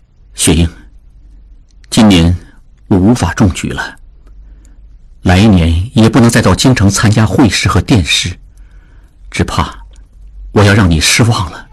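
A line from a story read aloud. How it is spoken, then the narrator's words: Sad, tearful, soft. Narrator (Chinese): 志庸心中难过，含泪轻声说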